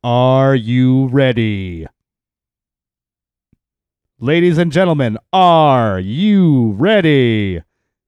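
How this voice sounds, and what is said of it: Imitates a boxing ring announcer. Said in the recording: “my best Michael Buffer impersonation ... He was the boxing guy ... the Let's Get Ready to Rumble guy”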